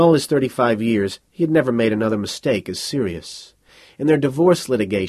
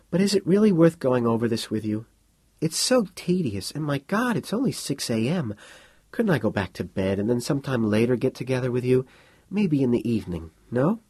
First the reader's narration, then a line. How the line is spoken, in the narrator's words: She sighed